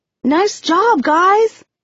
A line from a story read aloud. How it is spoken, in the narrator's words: I yell